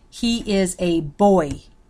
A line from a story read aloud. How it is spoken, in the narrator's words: he says slowly and firmly to Master Archer